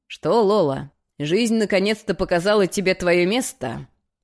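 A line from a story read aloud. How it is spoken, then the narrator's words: Scoffing snort. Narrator (Russian): хмыкнул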